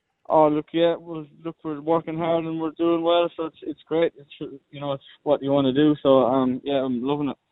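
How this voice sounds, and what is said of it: Irish accent. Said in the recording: “we can tell by your accent, you're Irish”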